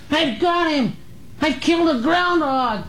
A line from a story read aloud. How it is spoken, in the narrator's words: a high-pitched, excited boy's voice yelled from the thicket